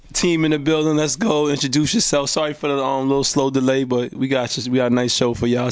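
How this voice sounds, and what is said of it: Hoarse, choppy voice from a cold. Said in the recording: “Excuse my voice, I'm coming down with a little cold... it's coming in and out. It's a little choppy”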